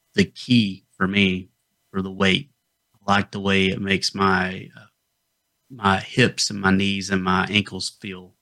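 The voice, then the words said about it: Appalachian North Georgia accent. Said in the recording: “I'm originally from North Georgia. If you couldn't tell from the accent that I was from the Appalachians”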